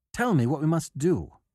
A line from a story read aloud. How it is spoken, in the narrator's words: cried